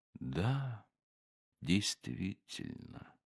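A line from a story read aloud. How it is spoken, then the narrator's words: Faint, absent-minded murmur. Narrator (Russian): один из гостей, слушая и уносясь мыслями куда-то очень-очень далеко, сказал едва слышно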